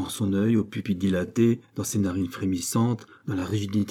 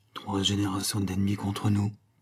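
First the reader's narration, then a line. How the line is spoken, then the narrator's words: Murmured. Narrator (French): murmura-t-il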